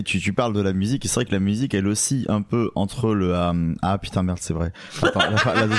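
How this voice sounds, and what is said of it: Usual voice. Nothing is said of it.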